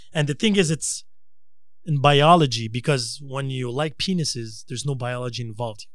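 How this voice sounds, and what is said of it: Noticeable foreign accent. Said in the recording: “Sorry for the accent. It must be the liquor.”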